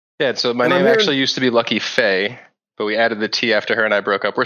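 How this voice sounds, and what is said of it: Boston accent that sounds slightly Canadian. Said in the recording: “a little bit of a Canadian accent? ... I'm from Boston, which is close to Canada ... When I say stop and about, they hear Canadian accent”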